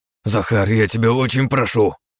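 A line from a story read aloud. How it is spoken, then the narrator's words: Sudden agitated blurt. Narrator (Russian): вдруг взволнованно выпалил Головин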